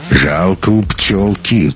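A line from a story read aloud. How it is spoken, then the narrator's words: Muttered through teeth. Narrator (Russian): процедил бомж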